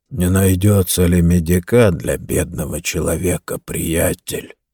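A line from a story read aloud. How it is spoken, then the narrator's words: Dull, flat voice. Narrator (Russian): спросил Джо глухим бесцветным голосом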